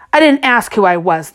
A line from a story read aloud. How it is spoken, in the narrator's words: snapped